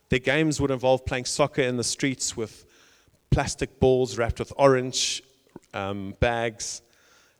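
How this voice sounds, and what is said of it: South African accent. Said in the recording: “I grew up in South Africa, you can probably tell by the accent”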